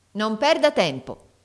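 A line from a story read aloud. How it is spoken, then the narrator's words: Harsher tone, concierge. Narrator (Italian): tornò a dire con tono più duro la portinaia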